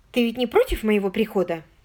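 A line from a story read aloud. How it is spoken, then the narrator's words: Hurried. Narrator (Russian): торопливо произнесла она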